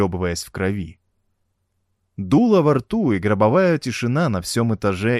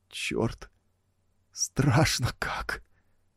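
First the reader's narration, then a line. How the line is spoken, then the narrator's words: Speaking through tears. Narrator (Russian): сквозь слезы вымолвил он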